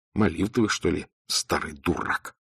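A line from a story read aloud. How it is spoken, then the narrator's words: Whisper. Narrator (Russian): шептал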